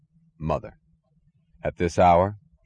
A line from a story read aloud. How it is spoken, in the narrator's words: asked dryly